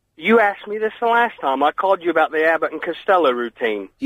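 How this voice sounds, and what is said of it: American voice with mock-Cockney sound. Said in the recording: “You sound like Dick Van Dyke. You really do. ... you sound like Dick Van Dyke. God blimey, Mary Poppins.”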